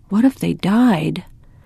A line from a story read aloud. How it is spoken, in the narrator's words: Anna whispered